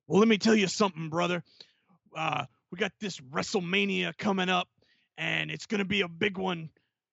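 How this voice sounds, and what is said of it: Hulk Hogan and Jesse Ventura impression. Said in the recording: “I feel like I'm kind of mixing my impersonations here with Jesse the Body Ventura and the Hulkster ... I'm like, okay, Hulk, nope, that's the body.”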